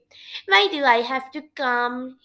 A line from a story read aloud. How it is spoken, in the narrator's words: whined